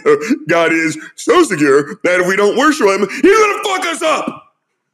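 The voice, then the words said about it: Imitates another person's voice. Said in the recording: “my Doug Wilson impersonation.”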